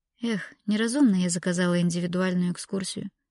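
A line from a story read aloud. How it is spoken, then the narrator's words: Sigh. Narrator (Russian): вздохнула Лаура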